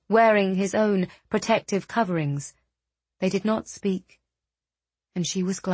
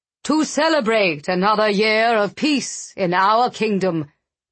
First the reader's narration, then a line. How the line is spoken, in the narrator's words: the king's voice boomed